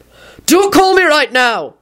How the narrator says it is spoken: he shouted into it

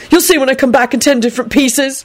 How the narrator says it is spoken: he added crossly

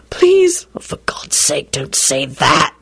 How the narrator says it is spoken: he whispered desperately

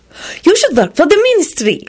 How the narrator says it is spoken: she added excitedly

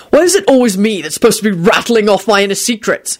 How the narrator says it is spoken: He snapped

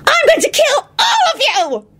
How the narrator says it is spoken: Loretta squealed maniacally

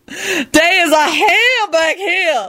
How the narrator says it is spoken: Lucretia wailed unrepentantly

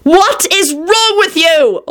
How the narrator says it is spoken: Elizabeth yelled

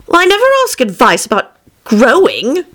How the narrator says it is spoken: Alice said indignantly

